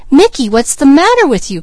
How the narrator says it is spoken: cried Peaches suddenly

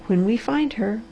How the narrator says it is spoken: repeated softly and exultantly

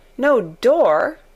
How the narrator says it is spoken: cried Mary

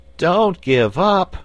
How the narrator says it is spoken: pleaded Button-Bright

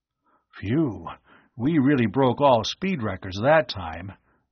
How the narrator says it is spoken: Arv panted

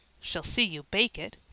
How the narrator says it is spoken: said Ben

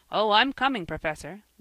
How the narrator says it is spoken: laughed Jasper

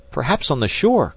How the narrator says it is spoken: cried Jack

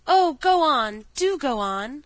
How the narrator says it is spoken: the children cried out

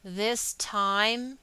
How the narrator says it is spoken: he spoke aloud and through his teeth

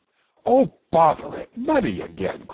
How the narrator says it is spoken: cried the doctor

